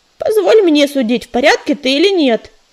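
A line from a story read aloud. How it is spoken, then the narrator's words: Snorting. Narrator (Russian): фыркнула Листвечка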